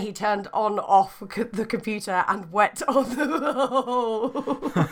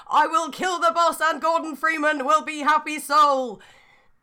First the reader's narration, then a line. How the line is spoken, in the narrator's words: John Freeman looked at it and got sad and yelled